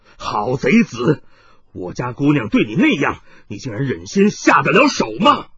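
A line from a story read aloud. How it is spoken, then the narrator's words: Harsh angry scolding. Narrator (Chinese): 冷泉福 厉声大骂道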